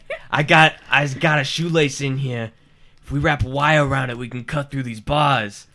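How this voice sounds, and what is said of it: Prison Mike impression voice. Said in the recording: “I've never heard this accent before. ... I think it's Prison Mike.”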